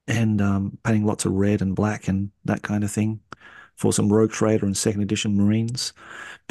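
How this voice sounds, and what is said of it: Australian accent. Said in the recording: “you just get to hear my Aussie accent in the background”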